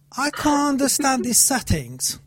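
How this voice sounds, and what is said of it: Clumsy put-on British English accent. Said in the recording (Persian): “من خیلی احمقانه و غلط این لهجه رو اجرا میکنم، بیشتر شبیه لهجه رشتی میمونه تا انگلیسی باشه ... بریتیش اکسنت ... من فکر می‌کنم شبیه رشتی لهجه‌ام”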